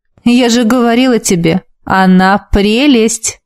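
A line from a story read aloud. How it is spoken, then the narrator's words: Laughing. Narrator (Russian): рассмеялась Тася, обращаясь к мужу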